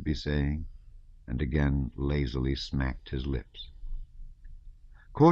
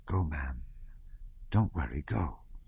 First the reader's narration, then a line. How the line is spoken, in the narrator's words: she whispered, smiling, with the kind of familiarity that grows up between a nurse and her mistress